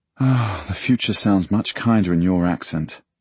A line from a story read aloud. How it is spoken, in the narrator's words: I sigh